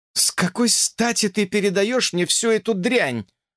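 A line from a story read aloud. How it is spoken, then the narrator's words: Agitated question. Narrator (Russian): взволнованно спросила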